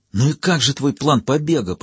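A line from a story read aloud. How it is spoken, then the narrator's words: Hissing. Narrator (Russian): прошипел Гордий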